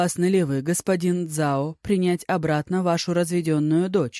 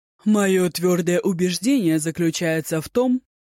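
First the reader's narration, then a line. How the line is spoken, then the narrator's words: Loud proclamation. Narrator (Russian): громко провозгласил господин Цзао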